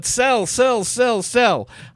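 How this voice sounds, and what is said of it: Yelling, Eddie Murphy style. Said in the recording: “I'm doing an Eddie Murphy, and I'm yelling”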